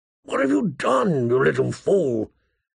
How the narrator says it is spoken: he asked hoarsely

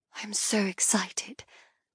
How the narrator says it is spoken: I whisper to Aemon

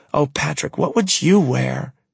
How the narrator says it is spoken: She sighs

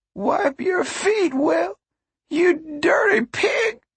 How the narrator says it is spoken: Grandma cried

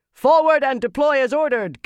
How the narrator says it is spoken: Gaibon shouted

